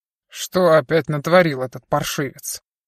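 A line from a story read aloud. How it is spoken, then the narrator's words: Menacing question. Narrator (Russian): грозно спросил Олаф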